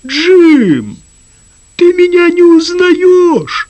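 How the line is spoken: Bird's deeply sad voice. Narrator (Russian): отвечала птица бесконечно печальным голосом

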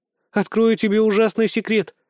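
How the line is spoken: Sighing. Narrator (Russian): вздохнула Настя

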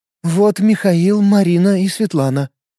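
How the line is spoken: Flat, even voice. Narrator (Russian): ровным голосом доложила загипнотизированная женщина

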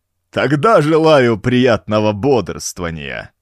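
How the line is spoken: Laughing like cackling hyena. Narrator (Russian): промолвил Уджук со смехом, словно гиена захохотала из подземелья

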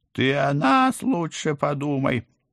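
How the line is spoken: Choking, yelling cat. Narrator (Russian): захлебываясь, орал кот

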